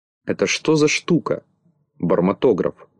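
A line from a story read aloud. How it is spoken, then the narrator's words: Plain. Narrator (Russian): спросил Винтик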